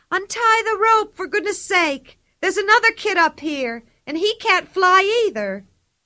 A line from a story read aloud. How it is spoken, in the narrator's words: Pippi yelled